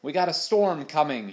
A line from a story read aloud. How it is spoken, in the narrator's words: he shouted